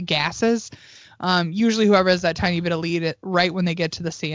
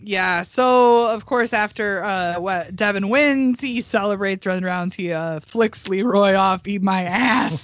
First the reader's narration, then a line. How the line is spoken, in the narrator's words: he yells